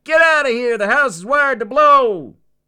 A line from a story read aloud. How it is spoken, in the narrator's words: He shouted into his mic